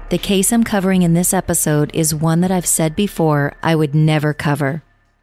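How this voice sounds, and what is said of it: Slightly sick-sounding voice. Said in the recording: “I'm a little under the weather, so if my voice sounds a little funky”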